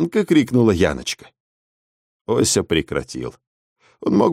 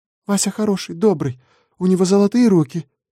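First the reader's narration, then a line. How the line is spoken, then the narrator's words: Soft babbling. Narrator (Russian): пролепетала Яночка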